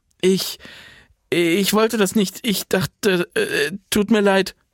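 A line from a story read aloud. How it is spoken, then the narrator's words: Stammering. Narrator (German): stammelte sie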